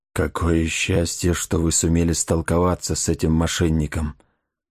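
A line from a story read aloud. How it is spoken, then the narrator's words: Whisper. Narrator (Russian): прошептал разведчик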